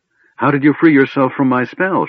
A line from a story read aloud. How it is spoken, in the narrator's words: She gasped